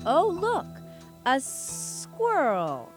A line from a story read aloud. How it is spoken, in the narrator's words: Ka hissed